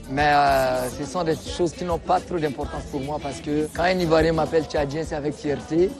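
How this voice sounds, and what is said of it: Chadian-accented French. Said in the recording (French): “de par mon accent, on sait que c'est un tchadien”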